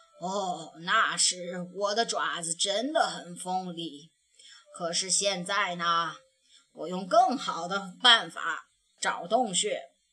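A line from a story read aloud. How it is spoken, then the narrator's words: Sighing. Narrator (Chinese): 他叹着气说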